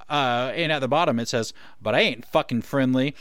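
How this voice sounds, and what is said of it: Put-on accent on quoted line. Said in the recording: “I like that accent fine. That you just pulled out there for that.”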